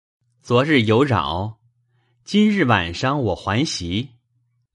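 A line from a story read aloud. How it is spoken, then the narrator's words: Laughing. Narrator (Chinese): 宝玉笑道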